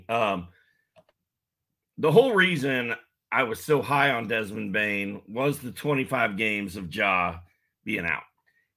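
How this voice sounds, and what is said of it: Hoarse, fading voice. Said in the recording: “I'm losing my voice here, so just bear with me.”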